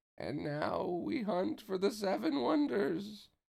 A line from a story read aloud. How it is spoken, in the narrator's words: Pence said in a creepy voice, grinning with anticipation